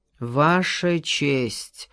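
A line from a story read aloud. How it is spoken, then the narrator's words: Weary. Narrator (Russian): устало начал Хопкинс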